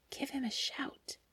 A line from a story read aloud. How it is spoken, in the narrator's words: the friend whispered